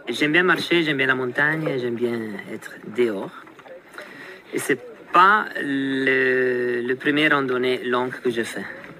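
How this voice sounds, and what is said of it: Swiss Italian accent in French. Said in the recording (French): “Ce bel accent-là, c'est celui de ... un Suisse italien”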